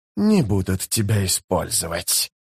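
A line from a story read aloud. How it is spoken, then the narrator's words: Hissed. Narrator (Russian): зашипел Искарал прыщ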